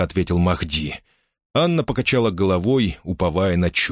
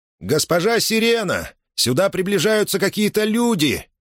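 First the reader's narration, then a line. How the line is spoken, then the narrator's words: Shouting from a distance. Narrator (Russian): крикнул Люфти со своего наблюдательного поста на вершине выступа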